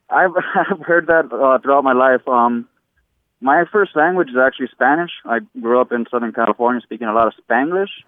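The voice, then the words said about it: Unusual, hard-to-place accent. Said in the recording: “your accent is telling me a different story ... people tell me that I sound Irish, Australian, or just can't pinpoint it ... It is a unique and novel idiolect.”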